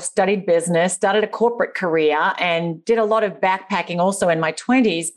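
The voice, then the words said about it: Australian accent. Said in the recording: “As you can probably tell from my accent, I'm from the deep, deep, deep, deep, deep south, and the land down under”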